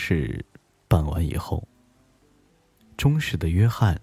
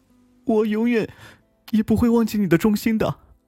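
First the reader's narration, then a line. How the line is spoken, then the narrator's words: Young man weeping. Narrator (Chinese): 年轻的国王哭泣着说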